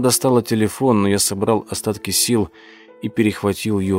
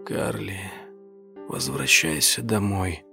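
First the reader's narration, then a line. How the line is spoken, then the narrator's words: Fading whisper. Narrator (Russian): прошептал я, чувствуя, как сознание меня покидает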